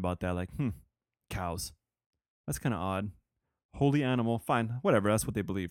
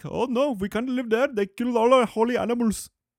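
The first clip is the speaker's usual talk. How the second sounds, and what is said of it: Poor put-on Indian accent. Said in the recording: “That was a horrible Indian accent.”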